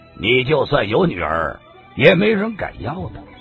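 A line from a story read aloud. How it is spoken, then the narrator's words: Flat, indifferent. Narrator (Chinese): 白马张三儿淡淡的说道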